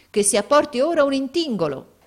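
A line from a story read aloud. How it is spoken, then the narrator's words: Exclaiming. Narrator (Italian): esclamò il Barmecida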